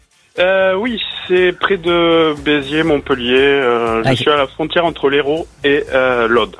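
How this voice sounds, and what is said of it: Southern French Hérault accent. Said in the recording (French): “Vous avez un joli accent, c'est quoi, c'est l'Hérault?”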